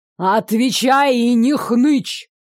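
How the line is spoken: Thundering. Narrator (Russian): прогремело

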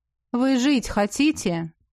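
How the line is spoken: Mocking executioner. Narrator (Russian): Насмешливо спросил палач

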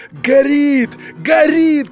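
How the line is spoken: Shouting in unison. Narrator (Russian): кричали все в один голос

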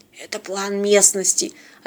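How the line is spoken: Mouthed whisper. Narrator (Russian): одними губами шепнул Бьорн

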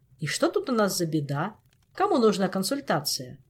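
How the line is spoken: Cheerful question. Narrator (Russian): Бодро поинтересовался папа

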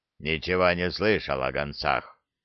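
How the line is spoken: Grumbling orc. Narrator (Russian): проворчал орк

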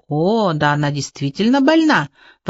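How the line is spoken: Exclamation. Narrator (Russian): воскликнул полковник Егоров

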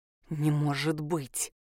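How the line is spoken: Whisper. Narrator (Russian): прошептал он

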